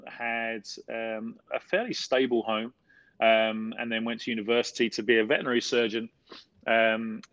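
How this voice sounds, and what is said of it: Casual South London accent, dropped letters. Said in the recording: “I'm from South London, um, and in South London we tend to miss out quite a lot of letters in words that normal people pronounce, um, and so my dialect is uh, very casual.”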